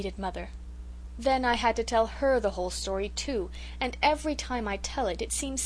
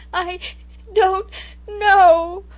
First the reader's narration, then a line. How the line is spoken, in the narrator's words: I sobbed